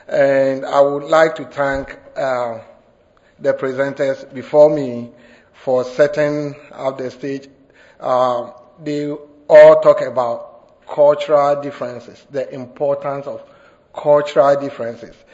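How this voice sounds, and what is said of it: Ghanaian West African accent. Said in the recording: “the accent is not from here. I'm originally from Ghana, West Africa.”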